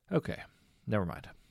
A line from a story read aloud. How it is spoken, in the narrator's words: she said